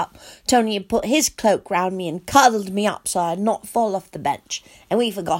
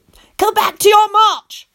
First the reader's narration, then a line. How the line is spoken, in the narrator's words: I yelled at the inferi